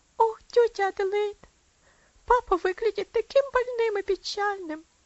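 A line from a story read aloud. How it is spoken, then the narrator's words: Child sobbing. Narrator (Russian): всхлипнула девочка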